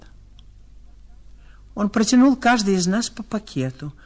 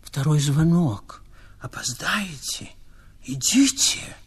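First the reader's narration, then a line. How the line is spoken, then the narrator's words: Whisper. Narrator (Russian): прошептал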